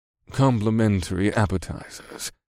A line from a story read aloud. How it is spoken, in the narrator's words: he said in his smooth, courteous voice